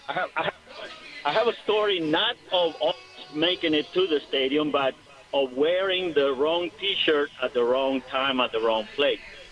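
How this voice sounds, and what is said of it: Hispanic accent. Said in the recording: “You can hear my accent. I'm Hispanic”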